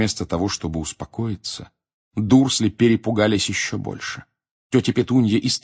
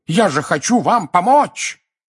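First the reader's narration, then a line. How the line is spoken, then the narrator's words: Roaring like wounded hippo. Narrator (Russian): Взревев, как раненый гиппопотам, дядя Вернон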